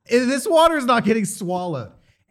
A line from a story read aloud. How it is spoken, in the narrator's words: I was choking so much, I was like